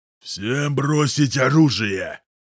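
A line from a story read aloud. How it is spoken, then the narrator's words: Thunderous command. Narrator (Russian): громовым голосом приказывает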